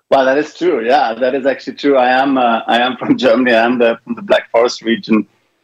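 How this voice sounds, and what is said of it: Mixed German-influenced English accent. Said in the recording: “I hear a German accent, Black Forest region ... my accent now is all mixed up. So some people think I'm South African. Others think I'm Irish ... it's definitely a mix”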